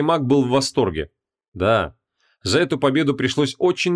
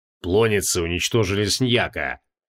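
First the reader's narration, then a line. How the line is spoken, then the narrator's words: Triumphant laugh. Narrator (Russian): торжествующе хохотнул Креол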